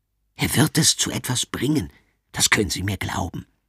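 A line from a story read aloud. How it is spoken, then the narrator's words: Whisper. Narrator (German): flüstert ihnen der Direktor zu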